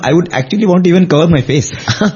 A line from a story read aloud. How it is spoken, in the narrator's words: Swami in a chuckles and he says